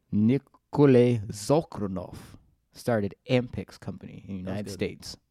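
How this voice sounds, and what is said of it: Good put-on Russian accent. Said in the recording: “That was good. That was a good Russian accent.”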